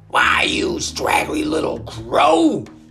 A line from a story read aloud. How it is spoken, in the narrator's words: he bellowed, charging at the bird